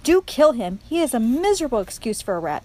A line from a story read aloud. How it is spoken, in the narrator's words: shouted Botticelli